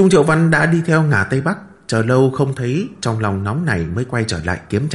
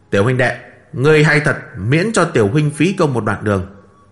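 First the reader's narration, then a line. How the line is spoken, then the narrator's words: Smiling praise. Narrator (Vietnamese): nóng nảy tiêu tan hết, mỉm cười khen nói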